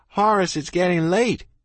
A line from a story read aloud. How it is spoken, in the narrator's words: I hollered